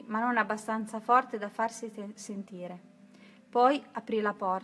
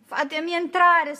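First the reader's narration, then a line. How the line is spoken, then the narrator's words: Shrieked. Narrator (Italian): strillò Trudy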